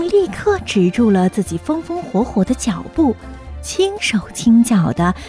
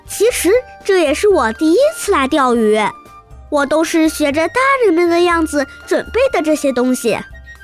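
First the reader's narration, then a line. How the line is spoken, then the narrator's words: Shy, embarrassed laugh. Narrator (Chinese): 听到彤彤这句夸奖，威尔不好意思地笑着说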